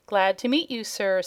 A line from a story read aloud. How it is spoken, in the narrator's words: said Cap'n Bill